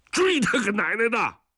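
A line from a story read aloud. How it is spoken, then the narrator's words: Roaring shout. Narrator (Chinese): 吼完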